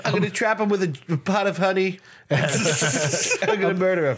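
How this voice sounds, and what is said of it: Trump impression mixed with Bill Murray. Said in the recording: “your Trump impression because it's like half Trump, half Bill Murray from Caddyshack”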